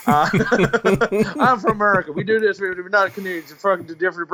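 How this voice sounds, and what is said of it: Bad put-on American accent, Texan-ish. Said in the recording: “I'm going to do a bad American accent, so I'm sorry ... Texas or something. Yeah, let's say Texas. Or wherever my accent is trying to come from.”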